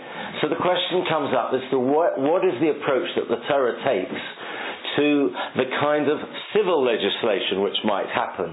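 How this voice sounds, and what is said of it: Voice in poor condition. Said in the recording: “forgive my voice, it's a bit bad today”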